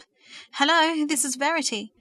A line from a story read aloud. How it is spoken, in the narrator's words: she said anxiously, rather out of breath